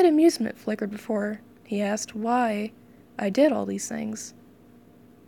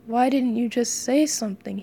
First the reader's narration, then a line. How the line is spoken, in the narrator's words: he mumbled between his hands